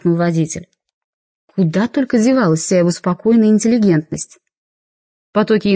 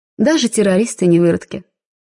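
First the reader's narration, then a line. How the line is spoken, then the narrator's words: Plain. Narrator (Russian): сказала я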